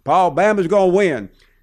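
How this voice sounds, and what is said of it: Put-on Southern accent. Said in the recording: “There I go trying to do a Southern accent.”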